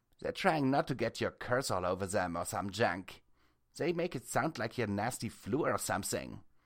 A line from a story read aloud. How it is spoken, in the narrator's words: Precious said with a snort